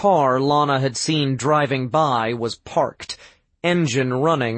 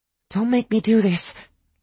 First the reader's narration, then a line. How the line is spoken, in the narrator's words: Lana pleaded